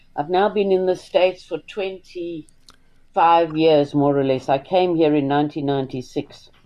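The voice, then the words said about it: South African accent. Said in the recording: “it's obvious from your accent that you are South African”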